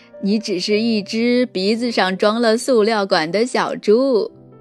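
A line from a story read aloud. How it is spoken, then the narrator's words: Laughing. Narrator (Chinese): 袋鼠笑着说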